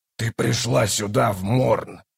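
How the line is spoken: Cold interruption. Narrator (Russian): холодно перебил Пранчоль

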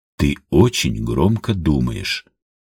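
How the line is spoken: Calm. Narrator (Russian): спокойно сказал он

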